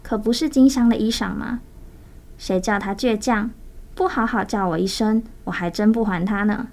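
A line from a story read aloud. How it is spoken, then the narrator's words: Dreamy, dazed smile. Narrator (Chinese): 宝鱼还有点梦糊糊的，带着迷惘的微笑，说道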